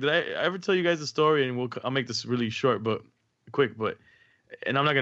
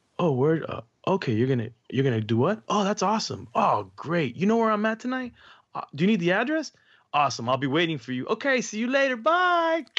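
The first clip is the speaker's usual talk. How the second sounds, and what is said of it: Calm, even-toned speaking voice. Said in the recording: “in my calm voice”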